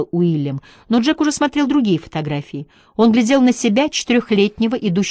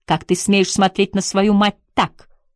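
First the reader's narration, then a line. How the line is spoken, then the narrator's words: Father's sharp question. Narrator (Russian): резким тоном спросил отец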